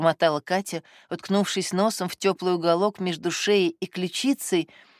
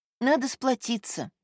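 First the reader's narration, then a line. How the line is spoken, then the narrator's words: Sighing. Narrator (Russian): вздохнула Катя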